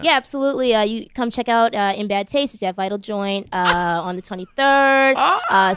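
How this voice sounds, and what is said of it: Fake Boston accent. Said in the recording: “my fake Boston ... Can you give us give a plug for the show in your Boston accent?”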